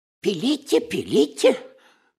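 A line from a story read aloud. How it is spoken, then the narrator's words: Babbling timidly. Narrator (Russian): пролепетал Паниковский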